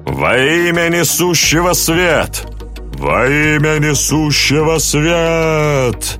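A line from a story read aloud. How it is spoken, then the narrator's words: Thundering crowd chant. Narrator (Russian): Прогремела вся площадь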